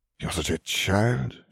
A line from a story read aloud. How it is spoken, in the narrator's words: she sighed